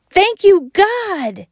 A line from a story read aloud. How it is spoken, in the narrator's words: shouted Wayne